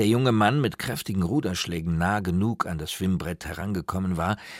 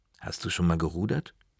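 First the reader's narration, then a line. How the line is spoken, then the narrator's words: Plain. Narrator (German): fragte ich ihn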